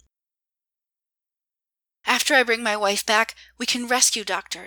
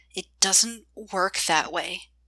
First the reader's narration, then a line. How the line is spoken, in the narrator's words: she said through clenched teeth